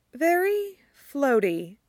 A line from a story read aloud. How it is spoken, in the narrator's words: Lydia says, her tone dreamy